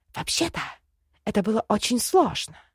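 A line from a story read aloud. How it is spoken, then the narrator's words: Grumbled. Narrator (Russian): буркнула ведьма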